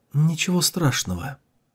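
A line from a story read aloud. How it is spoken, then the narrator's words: Quiet reply. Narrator (Russian): Ван Джен тихо ответила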